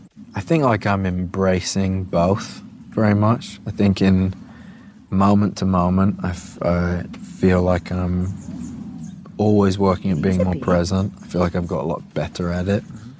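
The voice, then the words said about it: Mixed British-American rocker accent. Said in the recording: “Sounds like an old kind of rocker at the moment. ... I feel like it's a bit of like American in there as well. It's like that accent that doesn't quite know where it's from. ... Are they Liverpool in? That's what it sounds like to me.”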